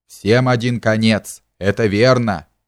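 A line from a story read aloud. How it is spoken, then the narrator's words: Spiteful. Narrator (Russian): произнес он злобно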